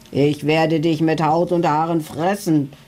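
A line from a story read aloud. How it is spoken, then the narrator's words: Booming thunderous male voice. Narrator (German): donnerte er mit dröhnender Stimme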